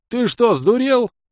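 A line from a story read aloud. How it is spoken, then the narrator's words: Innkeeper yelling. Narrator (Russian): заорал трактирщик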